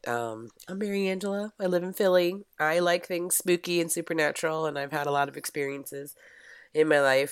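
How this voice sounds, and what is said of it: Low, raspy smoker-like voice. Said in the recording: “That's why my voice sounds so pretty. I sound like Eartha Kitt. I don't sound like a smoker.”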